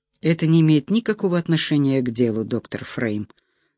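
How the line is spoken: Calm. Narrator (Russian): проговорил он спокойно

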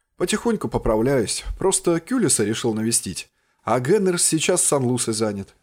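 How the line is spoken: Plain. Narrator (Russian): ответил я

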